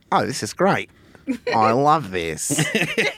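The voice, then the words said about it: Weak Australian accent. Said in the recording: “not great Australian accent, but it's in there”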